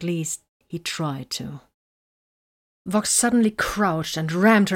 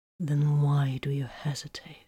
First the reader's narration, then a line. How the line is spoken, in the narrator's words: he breathed